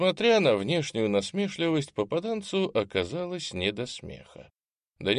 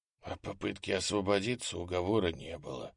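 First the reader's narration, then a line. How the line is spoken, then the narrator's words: Whisper. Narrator (Russian): прошептал десятник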